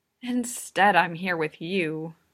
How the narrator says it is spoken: Watanuki sighed

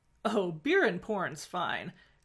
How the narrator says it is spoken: Carter said, her tone wryly amused

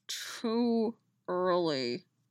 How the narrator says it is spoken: Dolls muttered in her ear, his breath hot on her skin

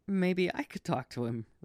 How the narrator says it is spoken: Ray said between bouts of laughter

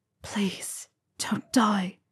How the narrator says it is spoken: He thought he heard Potter whisper

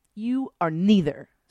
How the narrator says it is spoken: spat Destiny

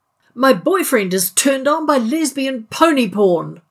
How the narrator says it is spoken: Rodney bellowed

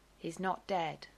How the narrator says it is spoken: Lisa says flatly

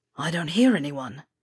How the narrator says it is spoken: Weasley whispered

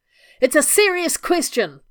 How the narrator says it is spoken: Rodney shouted

